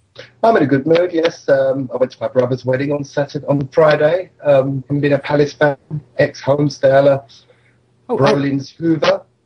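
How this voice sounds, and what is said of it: Put-on posh accent. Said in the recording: “why are you talking in that ridiculous manner? ... we were talking posh tonight”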